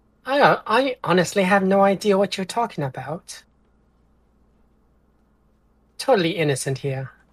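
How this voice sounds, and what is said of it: Unusual put-on accent. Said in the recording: “That's not your normal accent.”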